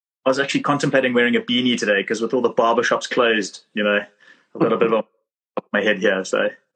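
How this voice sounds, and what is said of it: Thick South African accent. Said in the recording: “my terrible thick South African accent”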